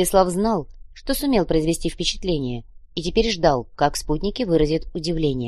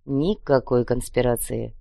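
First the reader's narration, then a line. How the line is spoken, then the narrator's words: Grumbling. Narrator (Russian): проворчал любознательный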